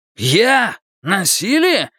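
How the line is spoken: Exclaimed. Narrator (Russian): воскликнул Джерри

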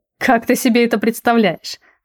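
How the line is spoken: Laughing. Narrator (Russian): рассмеялся Цербер

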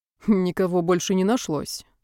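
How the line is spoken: Wry snort. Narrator (Russian): хмыкнул Дрянин

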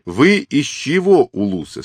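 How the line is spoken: Plain. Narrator (Russian): спросил Темуджин

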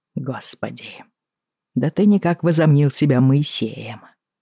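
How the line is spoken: Muttered. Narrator (Russian): пробормотал он

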